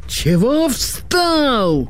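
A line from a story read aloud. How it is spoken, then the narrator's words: Sergeant yelling. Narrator (Russian): заорал сержант на Кешу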